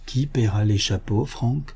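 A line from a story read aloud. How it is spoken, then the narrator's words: Whispering. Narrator (French): lui dit tout bas son cousin George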